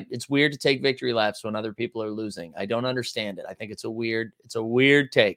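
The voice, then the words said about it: Slightly sick-sounding voice. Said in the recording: “My voice sounds a little, I don't know if I'm coming down with something”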